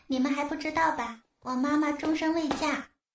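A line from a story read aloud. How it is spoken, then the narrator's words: Little girl, plain. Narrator (Chinese): 小丫头就说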